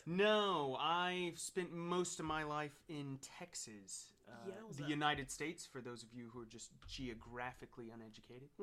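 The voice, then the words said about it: Non-local, likely American accent. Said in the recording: “as your accent says, you're not from these parts”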